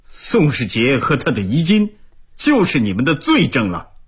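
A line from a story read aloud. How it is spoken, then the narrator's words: Angry rebuke. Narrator (Chinese): 毛鹏怒斥道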